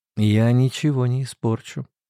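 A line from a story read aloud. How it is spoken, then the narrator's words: Soft but insistent. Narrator (Russian): сказала она мягко и настойчиво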